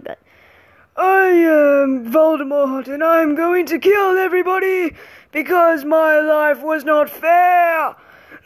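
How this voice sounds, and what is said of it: Poor villain voice, sounds like yawning. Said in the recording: “Excuse my voice for a moment. I'm trying to impersonate Voldemort. It's going terribly ... trying to impersonate Voldemort, but I think it just sounds like me yawning”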